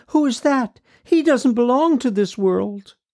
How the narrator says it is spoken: exclaimed

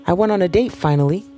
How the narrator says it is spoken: released a short laugh, feeling slightly adolescent

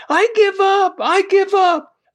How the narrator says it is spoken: yelled

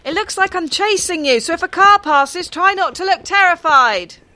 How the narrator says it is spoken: I heard Mike shouting from behind

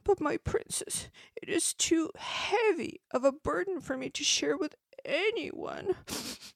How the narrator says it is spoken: The child answered miserably

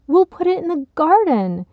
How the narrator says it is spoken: Cheryl exclaimed with another happy clap

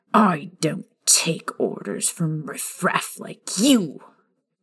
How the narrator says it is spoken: Vernon spat towards Remus, his face beginning to turn a shade of purple

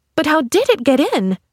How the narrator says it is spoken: She cried

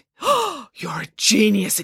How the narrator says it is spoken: exclaimed Nanny Piggins

